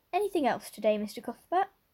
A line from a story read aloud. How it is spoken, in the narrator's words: Miss Harris cheerfully inquired